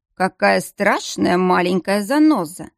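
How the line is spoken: Amused snort. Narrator (Russian): хмыкнул Дияр

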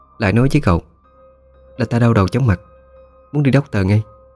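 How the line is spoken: Weary sighing voice. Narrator (Vietnamese): Nàng ta khẽ thở dài một tiếng, rồi nói với con hầu

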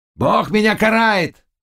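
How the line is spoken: Shouting. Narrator (Russian): кричал

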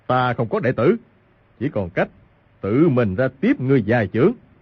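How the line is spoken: Furious shout. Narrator (Vietnamese): ông càng tức giận quát lên

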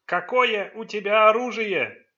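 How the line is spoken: Ghost shouting over storm. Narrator (Russian): крикнул призрак, перекрывая шум шторма

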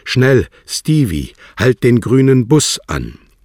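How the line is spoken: Loud call. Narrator (German): Nun rief sie laut

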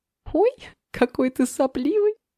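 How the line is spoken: Laughing. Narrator (Russian): рассмеялась Лера

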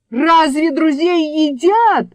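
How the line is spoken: Desperate shout. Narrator (Russian): в отчаянии выкрикнул Абдул-Надул

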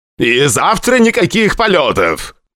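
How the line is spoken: Shout after departing listeners. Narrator (Russian): крикнул нам вдогонку Борис Николаевич

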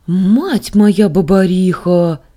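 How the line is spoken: Child exclaiming. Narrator (Russian): воскликнула мелочь

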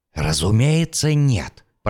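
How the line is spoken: Hissing. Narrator (Russian): прошипел он

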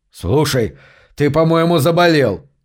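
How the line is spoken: Snapped. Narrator (Russian): огрызнулся Гарри

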